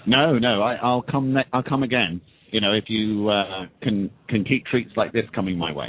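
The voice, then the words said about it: A striking accent. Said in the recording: “Listen to that accent. That is awesome.”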